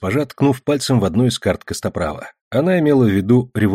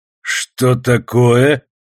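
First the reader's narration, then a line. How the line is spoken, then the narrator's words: Old man barking impatiently. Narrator (Russian): рявкнул старик, когда я принялся мямлить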